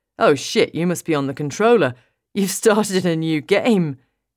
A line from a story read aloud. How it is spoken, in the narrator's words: laughs